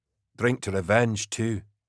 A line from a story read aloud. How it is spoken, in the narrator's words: Milo said quietly from his bunk